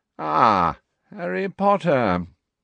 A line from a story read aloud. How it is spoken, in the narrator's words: gave a long yawn